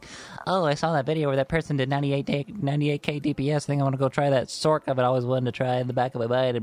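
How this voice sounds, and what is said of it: Put-on nerdy voice. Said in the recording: “nerd voice”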